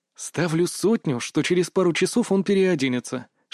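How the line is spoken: Whisper. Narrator (Russian): шепнул я Илоне

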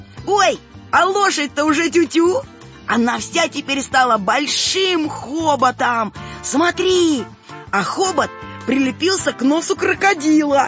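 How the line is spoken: Joyful shout. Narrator (Russian): Саня радостно закричал

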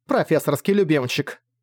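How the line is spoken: Scornful snort. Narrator (Russian): фыркнула

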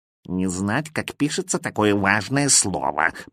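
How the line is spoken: Cat grumbling. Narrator (Russian): проворчал кот

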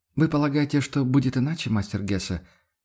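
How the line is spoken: Joyless smile. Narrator (Russian): невесело улыбнулся Фридрих

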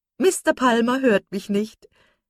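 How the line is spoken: Laughing. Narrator (German): sagte lachend

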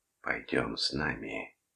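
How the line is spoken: Whispering. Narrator (Russian): шептала она

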